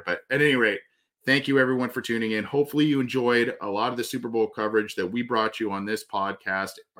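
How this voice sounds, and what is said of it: Voice going hoarse. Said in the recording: “I'm already losing my voice a little bit”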